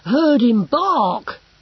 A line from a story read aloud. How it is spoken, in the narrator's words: he gasped